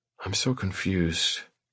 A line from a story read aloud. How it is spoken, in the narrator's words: I murmur